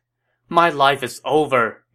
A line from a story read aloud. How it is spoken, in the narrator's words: Yuan Shao cried